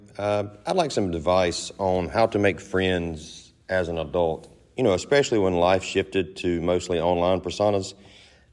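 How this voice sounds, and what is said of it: Southern Georgia accent. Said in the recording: “I love the Georgia accent. ... whatever Southern accent that is”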